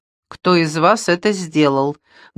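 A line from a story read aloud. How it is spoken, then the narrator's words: Menacing question. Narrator (Russian): грозно спросила Шейла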